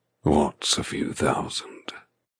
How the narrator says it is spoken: He murmurs

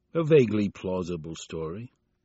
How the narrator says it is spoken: Byrne said coolly

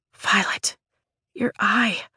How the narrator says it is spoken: Rhiannon says softly

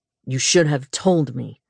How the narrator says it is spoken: he said coldly

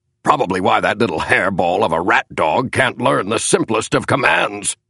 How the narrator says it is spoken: grunted Senator Henry Cabot Lodge

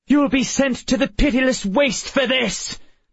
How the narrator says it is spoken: Miss Peregrine shouted

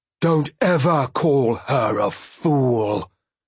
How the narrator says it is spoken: He snarled at me past sharp teeth

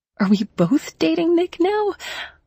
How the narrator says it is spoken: I said with a laugh

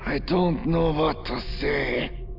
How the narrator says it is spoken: Zistalmu growled

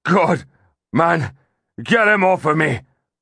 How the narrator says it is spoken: the butcher cried frantically

